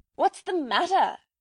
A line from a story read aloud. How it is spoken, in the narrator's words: he shouted